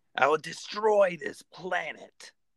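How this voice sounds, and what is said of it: Frieza character voice impression. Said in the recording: “Frieza. ... That's not a good impression.”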